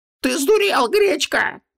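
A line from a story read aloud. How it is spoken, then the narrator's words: Shrieking. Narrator (Russian): провизжал Витангес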